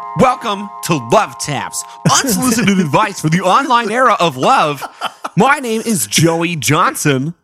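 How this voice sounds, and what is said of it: Radio DJ announcer voice. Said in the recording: “That's my radio DJ voice.”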